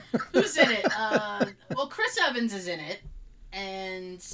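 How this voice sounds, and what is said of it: Usual voice. Nothing is said of it.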